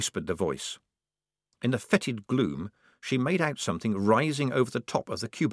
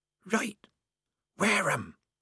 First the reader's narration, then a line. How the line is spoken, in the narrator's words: said the mystery voice hoarsely